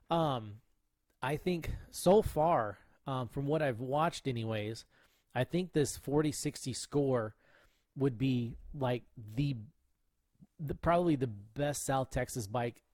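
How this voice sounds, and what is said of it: Raspy voice. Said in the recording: “I can feel my voice getting raspy.”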